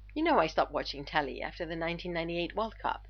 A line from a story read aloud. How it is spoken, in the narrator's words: Eames said